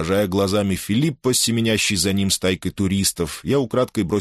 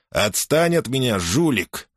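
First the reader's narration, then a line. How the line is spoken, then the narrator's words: Snapping. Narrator (Russian): огрызнулся Филиппо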